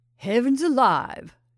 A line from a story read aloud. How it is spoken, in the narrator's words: exclaimed Hackett